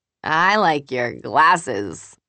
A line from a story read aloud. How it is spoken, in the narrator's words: Julie says, slurring